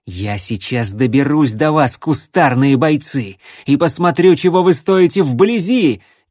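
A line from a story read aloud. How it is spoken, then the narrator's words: Shouted. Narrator (Russian): крикнул Рексволд зарослям вокруг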